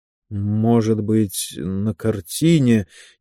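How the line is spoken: Uncertain. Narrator (Russian): неуверенно начал он

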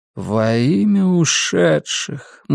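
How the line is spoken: Inner groan. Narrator (Russian): мысленно простонал Флинк

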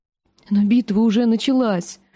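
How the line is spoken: Trembling voice. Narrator (Russian): дрожащим голосом говорила леди Танда

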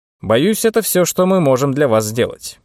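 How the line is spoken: Plain. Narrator (Russian): сказал он Хьюсону

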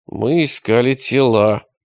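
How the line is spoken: Through clenched teeth. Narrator (Russian): ответил он сквозь зубы

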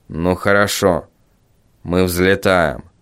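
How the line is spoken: Calm. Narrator (Russian): спокойно сказал

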